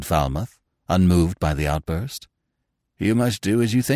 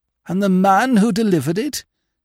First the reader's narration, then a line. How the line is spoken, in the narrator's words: he gasped